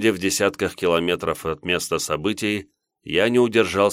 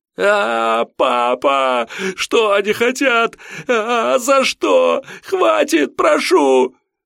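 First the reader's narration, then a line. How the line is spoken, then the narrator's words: Piercing teenage wailing. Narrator (Russian): Плач подростка был таким пронзительным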